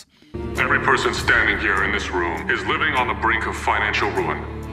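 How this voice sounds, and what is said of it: American accent. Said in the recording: “American accent versions ... the dubbed version with American accents”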